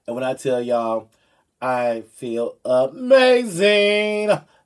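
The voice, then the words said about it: Imitates another person's voice. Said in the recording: “in my Oprah Winfrey voice.”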